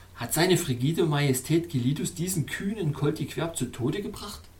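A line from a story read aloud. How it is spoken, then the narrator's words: Plain. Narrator (German): fragte ich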